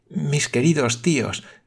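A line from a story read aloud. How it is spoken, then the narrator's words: Exclamation. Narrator (Spanish): exclamó la señorita Campbell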